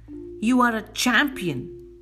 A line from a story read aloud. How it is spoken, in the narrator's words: Again the man screams